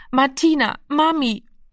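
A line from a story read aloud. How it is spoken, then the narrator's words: Hoarse exhausted helpless sobbing. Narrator (German): Heiser und kraftlos vor Erschöpfung sang er, schluchzend und hilflos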